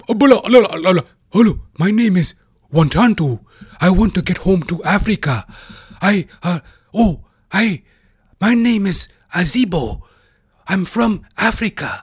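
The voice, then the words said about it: Exaggerated, corny African accent. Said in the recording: “when North American black guys do African accent. Eh, it's just so fucking corny.”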